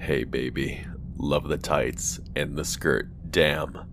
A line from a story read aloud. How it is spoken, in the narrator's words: In a very deep voice, he said